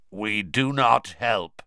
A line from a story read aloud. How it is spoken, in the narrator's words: he said, in a harsh, croaky voice